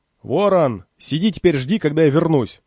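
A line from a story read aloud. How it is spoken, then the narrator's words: Shouting. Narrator (Russian): крикнул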